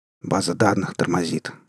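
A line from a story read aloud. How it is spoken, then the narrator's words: Curt mutter. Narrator (Russian): буркнул он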